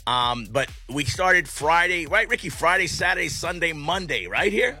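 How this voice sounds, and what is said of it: Hoarse, partly lost voice. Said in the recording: “I lost my voice. I'm actually slightly getting it back”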